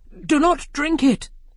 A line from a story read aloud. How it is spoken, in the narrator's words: the queen cried